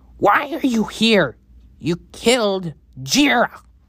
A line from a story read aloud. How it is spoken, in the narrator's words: yell